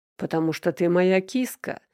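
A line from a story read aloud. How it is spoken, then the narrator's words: Deep chuckle. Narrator (Russian): басисто хохотнул Данил Никитич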